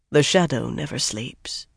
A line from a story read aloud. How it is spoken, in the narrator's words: Jagad put in quietly